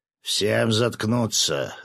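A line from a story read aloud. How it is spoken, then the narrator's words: Growled. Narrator (Russian): рыкнул на него рыбак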